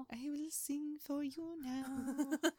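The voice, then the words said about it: Quiet imitation of a singer's voice. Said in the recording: “I like my Bjork impression. ... I hate my Bjork impression. ... you're not good at being quiet.”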